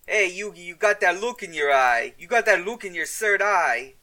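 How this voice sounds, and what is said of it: Joey voice, wandering Brooklyn-Boston accent. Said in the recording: “I don't know what accent that was. I think he traveled a little far away from Brooklyn there ... from New York to Boston and back again.”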